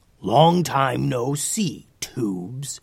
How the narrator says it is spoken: he growled

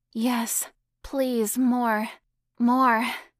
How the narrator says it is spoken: Donna gasped back

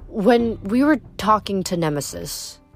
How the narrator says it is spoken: Hazel said uneasily

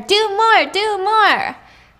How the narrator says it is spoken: They were giggling and shouting at her

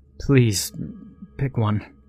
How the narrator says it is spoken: he stammered

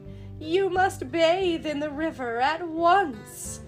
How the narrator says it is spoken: he cried

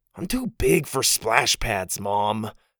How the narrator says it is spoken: Porter groaned

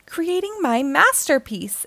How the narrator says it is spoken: exclaimed a beetle

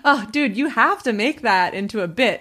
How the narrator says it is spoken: laughing really hard I was like

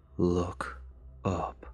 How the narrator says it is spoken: in a low, soothing voice

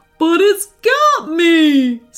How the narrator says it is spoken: squealed Birdo again

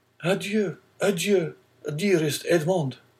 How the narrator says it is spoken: cried Mercedes

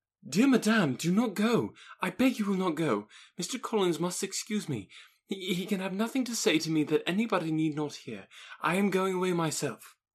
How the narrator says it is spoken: Elizabeth called out

